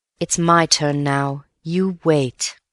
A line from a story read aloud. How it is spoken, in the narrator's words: murmured Antony to himself